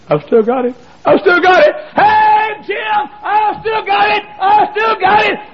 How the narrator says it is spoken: I started screaming

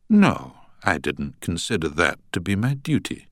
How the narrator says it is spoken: said Munro calmly

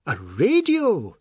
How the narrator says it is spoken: they cried

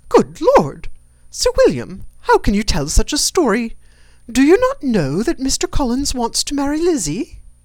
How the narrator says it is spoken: Lydia, always unguarded and often uncivil, boisterously exclaimed

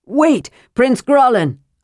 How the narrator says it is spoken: Armin shouted

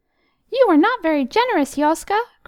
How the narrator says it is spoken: cried the tiny creatures as they hurried out of his reach

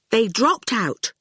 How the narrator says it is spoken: Fifi said firmly

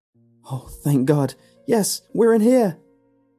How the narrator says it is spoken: yelled in response

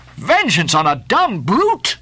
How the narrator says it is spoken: cried Starbuck

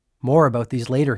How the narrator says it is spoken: he said

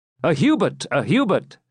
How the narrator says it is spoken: shouted the populace, more interested in a known person than in a stranger

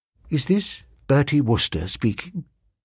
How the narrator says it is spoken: He said in a low voice

